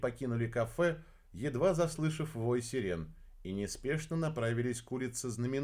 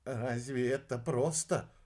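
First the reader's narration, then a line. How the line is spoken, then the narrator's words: Sigh. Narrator (Russian): вздохнул алхимик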